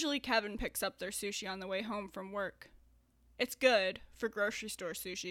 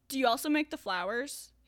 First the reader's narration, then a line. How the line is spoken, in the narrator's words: he blurts out